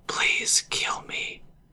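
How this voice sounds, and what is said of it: Whispered line. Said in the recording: “I'm going to whisper it to you guys right now”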